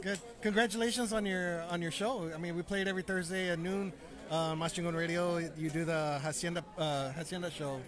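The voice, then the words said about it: Strained, fading hoarse voice. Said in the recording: “My voice is gradually going out... my voice is starting to get thrown out... Been talking for all night long.”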